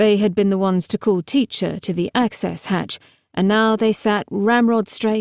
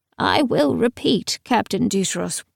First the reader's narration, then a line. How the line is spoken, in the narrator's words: said sadly